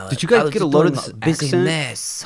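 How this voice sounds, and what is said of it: Put-on French accent. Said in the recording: “So he also says business very funny too. Like very French.”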